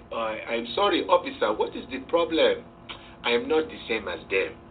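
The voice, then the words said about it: Put-on African accent. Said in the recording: “I used to try to use that African accent.”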